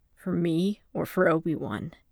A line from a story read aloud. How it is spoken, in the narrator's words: Fimor asked, how bitterly the words came out